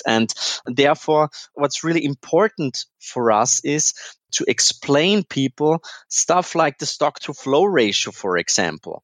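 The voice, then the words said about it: Austrian-accented English. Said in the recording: “As you can hear, perhaps I'm not only, I've got an Austrian accent, so I was born in Vienna”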